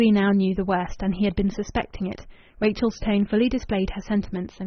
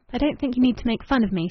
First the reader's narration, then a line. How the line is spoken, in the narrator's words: she said